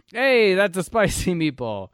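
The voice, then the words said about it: Put-on Italian accent. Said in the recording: “I don't know why I did Italian. ... One accent we can still do with abandon.”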